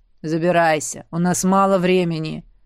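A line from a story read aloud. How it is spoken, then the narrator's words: Low growling voice inside head. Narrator (Russian): Раздался низкий, рычащий голос у меня в голове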